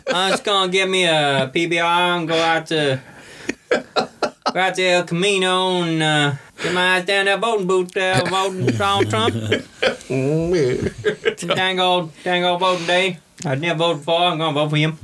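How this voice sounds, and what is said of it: Put-on accent, fairly convincing. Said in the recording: “That's quite good, actually. ... I have a compliment on one of my accents.”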